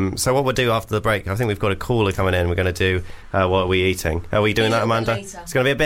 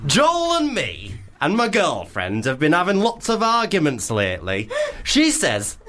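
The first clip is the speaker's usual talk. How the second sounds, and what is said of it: Attempted Leeds accent. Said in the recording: “should we do a Leeds accent? ... I'm not really sure of the regionals of anything above the M25. So I'm sorry if it doesn't sound Leeds. Maybe it'll be Hull.”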